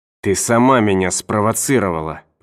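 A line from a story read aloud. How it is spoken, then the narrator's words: Hissed. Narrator (Russian): прошипел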